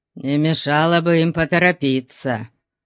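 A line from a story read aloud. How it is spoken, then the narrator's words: Gloomy pronouncement. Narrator (Russian): мрачно изрек Конан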